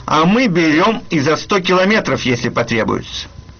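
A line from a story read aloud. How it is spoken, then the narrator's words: Cheerful remark. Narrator (Russian): пограничники ему весело заметили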